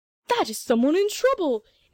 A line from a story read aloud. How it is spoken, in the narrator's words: exclaimed the old gander gentleman